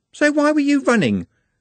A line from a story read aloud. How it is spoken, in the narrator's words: said Juliet sharply